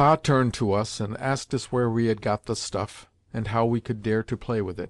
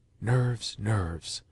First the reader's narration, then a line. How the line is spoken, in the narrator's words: whispered the doctor